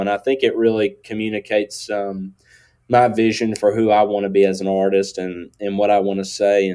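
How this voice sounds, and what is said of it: Country accent. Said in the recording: “as you could tell by my accent, you know, that's, you know, I lean into the country”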